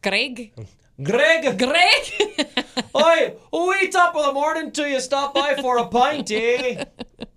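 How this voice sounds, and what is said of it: Put-on Irish accent. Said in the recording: “when you mimic his voice, you just have to do the Irish accent”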